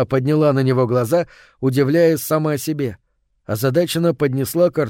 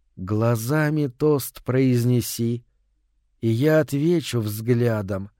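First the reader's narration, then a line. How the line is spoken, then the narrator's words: Soft, slow, tender singing. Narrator (Russian): запела она тихо, медленно, нежно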